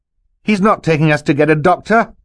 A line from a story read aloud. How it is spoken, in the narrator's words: Klaus shouted